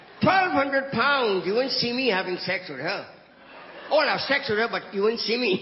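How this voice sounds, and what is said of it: Heavy non-native accent. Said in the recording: “you understood my shitty accent”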